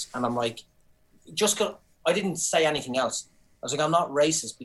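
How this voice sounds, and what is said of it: Irish accent. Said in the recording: “I have an accent ... It means I'm Irish, and this is how I speak.”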